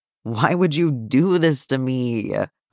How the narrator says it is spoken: Clint moans

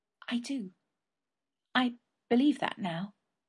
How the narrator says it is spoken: Marianne whispered

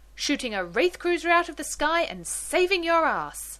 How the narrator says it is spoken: John shouts

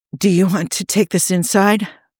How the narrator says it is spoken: he asked breathlessly

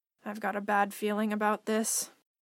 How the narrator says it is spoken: she muttered

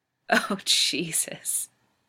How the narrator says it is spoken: Rodney moans

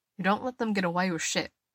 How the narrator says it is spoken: he says, keeping his voice level

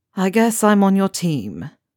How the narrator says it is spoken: said with a dramatic sigh

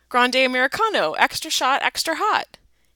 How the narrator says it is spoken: Without thinking it through, Jared blurted out

